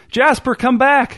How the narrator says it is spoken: shouted his wife

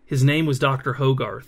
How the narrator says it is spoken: whispered Abel

